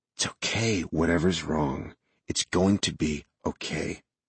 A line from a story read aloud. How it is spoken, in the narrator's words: I whispered in her ear